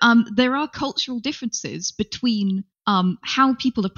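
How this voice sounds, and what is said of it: Usual voice. Nothing is said of it.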